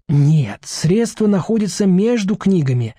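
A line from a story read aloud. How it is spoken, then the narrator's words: Cheerful reply. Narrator (Russian): радостно отвечает Артур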